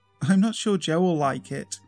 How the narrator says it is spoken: I laughed

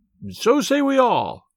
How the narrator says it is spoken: cried the others

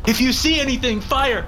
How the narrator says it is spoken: Hansen yelled

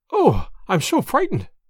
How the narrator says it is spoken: I panted

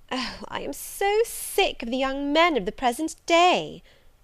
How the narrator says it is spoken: exclaimed she

